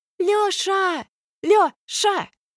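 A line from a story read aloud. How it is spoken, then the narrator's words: Yelling through cupped hands. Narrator (Russian): вопит Алька, всомкнутые в рупор руки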